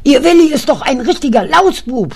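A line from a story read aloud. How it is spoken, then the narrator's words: Shouting. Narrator (German): schrie die Frau Kraus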